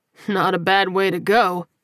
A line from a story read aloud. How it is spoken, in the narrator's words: Zion replied with a chuckle